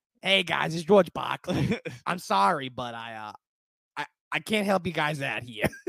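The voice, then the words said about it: Raspy Boston accent impression. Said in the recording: “You didn't just turn him Boston. You also turned him into a 35-year smoker. Pack-a-day smoker ... impersonation ... He does have a great accent.”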